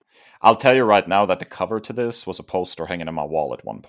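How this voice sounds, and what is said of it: German-accented English. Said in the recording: “I love the way you pronounce Wolverine ... Is it the German accent? ... It's the German W that gets me.”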